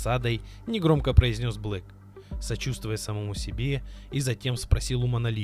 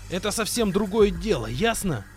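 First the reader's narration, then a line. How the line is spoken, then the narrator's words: Mercenary's furious shout. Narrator (Russian): Бешено прокричал наемник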